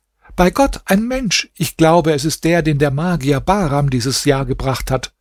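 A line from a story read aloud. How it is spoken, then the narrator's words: Joyful scream. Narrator (German): schrie sie freudig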